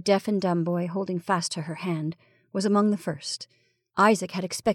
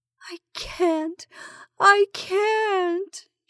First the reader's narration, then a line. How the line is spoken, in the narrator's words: she moaned